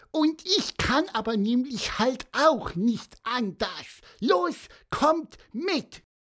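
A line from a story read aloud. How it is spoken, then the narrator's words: Cheerful squeak. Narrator (German): piepste Pieper fröhlich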